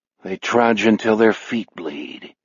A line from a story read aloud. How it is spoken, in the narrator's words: he mutters